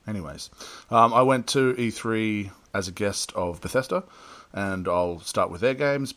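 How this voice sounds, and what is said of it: Slightly changed, worn-sounding voice. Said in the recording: “My voice is slightly different because I've been having some back-to-back big nights ... makes me sound sexier”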